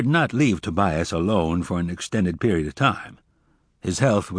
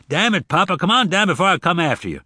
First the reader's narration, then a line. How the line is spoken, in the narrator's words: Zek shouted again